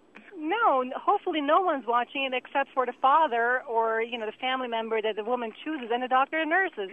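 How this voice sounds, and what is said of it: Slight foreign accent. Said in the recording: “You got something German going on there ... it's some Germanic thing. It's Swiss ... there's a slight accent that the lady has”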